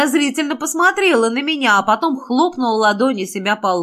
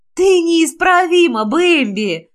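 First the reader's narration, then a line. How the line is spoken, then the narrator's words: Female groan. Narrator (Russian): простонала она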